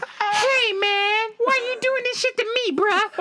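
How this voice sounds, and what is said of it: High-pitched falsetto voice. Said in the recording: “My voice went high. I sounded like one of the fucking DeBarge brothers. I hit falsetto,”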